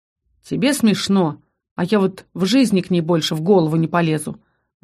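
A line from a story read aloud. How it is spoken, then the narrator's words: Gloomy. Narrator (Russian): мрачно отозвался Ас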